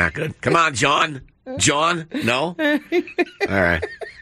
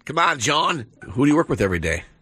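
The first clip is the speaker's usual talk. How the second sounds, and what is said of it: Bad put-on Boston accent. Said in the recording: “That was me pretending to be Ted calling for the... Bad Boston accent.”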